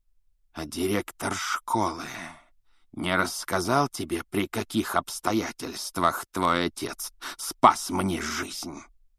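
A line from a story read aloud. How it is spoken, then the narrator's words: Hissed. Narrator (Russian): прошипел он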